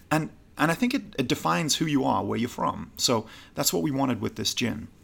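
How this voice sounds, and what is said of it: Non-American accent. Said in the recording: “You know I'm not necessarily American with this accent. You're like, yeah, there's something about that guy.”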